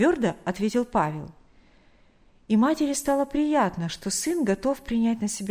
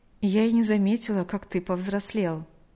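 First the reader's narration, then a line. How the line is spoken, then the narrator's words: Slightly sad, smiling. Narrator (Russian): немного грустно улыбнулась она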